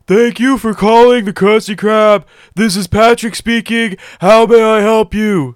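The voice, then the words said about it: Breathless Patrick Star impression. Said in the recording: “Great impression. ... It's not a great impression. ... It sounds like Nate when he just lost all his breath.”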